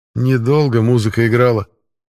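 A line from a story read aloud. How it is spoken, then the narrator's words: Gruff mutter. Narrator (Russian): буркнул Пашка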